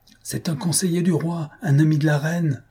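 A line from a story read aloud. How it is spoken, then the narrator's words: Man exclaiming. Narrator (French): s'écriait un homme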